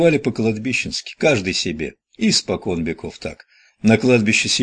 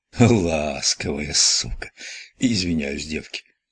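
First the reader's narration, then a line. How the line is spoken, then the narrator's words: Exhaled. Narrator (Russian): Ахапч выдохнул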